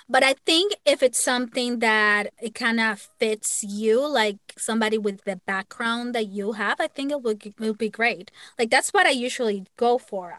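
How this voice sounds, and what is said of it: Latina accent in English. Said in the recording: “I'm Latina and I have that accent that I can't erase. Like I can't erase. It's there.”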